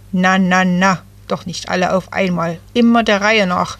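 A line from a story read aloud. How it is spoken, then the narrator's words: Croaking. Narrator (German): krächzte Jay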